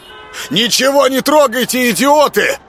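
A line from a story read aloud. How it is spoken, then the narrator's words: Yelled. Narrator (Russian): заорал им Костя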